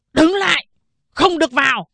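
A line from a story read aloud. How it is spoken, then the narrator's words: Militia shouting. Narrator (Vietnamese): Đám dân quân ... quát to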